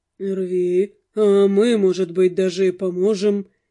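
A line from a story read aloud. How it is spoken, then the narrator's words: Smirking grunt. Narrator (Russian): хмыкнул в свою очередь Алонсо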